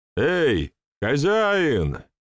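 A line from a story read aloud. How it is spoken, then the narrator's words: Rower shouting. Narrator (Russian): прокричал гребец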